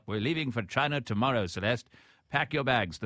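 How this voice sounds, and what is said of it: Put-on British colonial accent. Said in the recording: “Is that a British colonialist accent? ... Yes”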